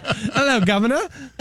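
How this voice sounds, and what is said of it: Put-on British accent. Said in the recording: “break out the British accent.”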